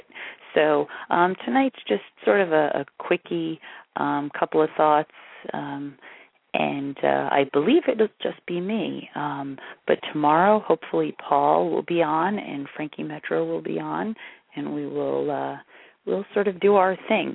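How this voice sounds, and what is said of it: Strained, worn-out voice. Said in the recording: “I don't know if you can tell, but my voice is really shot. I definitely have a sore throat thing going.”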